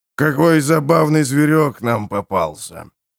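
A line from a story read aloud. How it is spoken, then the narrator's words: Quiet deep bass. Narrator (Russian): негромко пробасил ассасин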